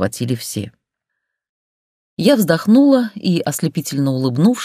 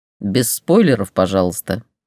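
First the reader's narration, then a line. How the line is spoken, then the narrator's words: Amused snort. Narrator (Russian): хмыкнул Рихт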